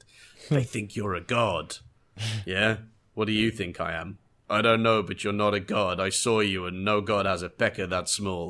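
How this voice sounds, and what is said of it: Tormund impression, accented delivery. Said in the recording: “there's just that great delivery of that line. It's just a complete masterpiece in that accent.”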